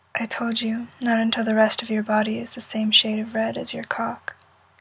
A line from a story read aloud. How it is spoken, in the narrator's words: He, lips brushing against his ear as he whispers